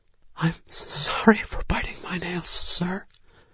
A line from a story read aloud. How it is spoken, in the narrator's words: she whispered